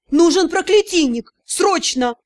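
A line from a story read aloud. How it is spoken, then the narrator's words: Agitated. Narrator (Russian): лорд Кейсар взволнованно произнес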